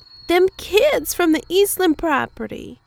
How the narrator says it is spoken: she squealed indignantly

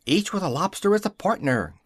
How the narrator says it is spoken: cried the griffin

